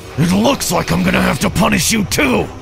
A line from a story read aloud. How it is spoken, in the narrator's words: He grunted into my ear